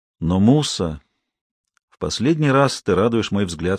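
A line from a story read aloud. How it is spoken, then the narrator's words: Plain. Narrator (Russian): сказал он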